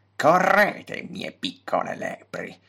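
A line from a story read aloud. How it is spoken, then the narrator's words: Muttered. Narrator (Italian): borbottò Horticulus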